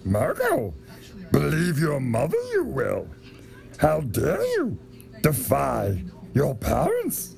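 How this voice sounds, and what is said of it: Yoda impression. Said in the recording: “did a badass Yoda impression ... me doing a Yoda impression”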